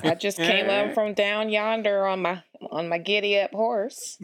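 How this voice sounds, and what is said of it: Exaggerated Southern accent. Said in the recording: “that Southern accent? ... We have a Southern person on our podcast today. ... play it up. Play it up for the, for the people.”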